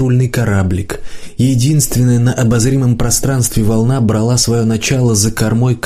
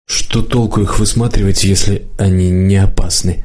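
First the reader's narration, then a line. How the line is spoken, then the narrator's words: Muttering to no one. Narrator (Russian): пробормотала Лидка, никому конкретно не обращаясь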